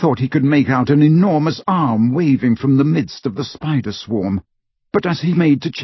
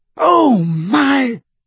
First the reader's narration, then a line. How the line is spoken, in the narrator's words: shrieked Hermione